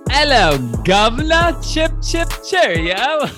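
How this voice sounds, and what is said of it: Exaggerated fake British accent. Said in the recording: “weird, uncomfortably awkward accents of all around the world. I got my weird British accent”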